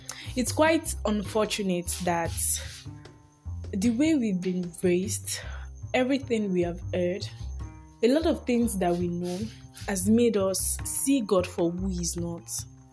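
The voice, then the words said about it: Put-on Nigerian accent. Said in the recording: “Nigerian accent”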